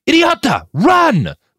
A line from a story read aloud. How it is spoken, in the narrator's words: the fixer bellowed at the top of his lungs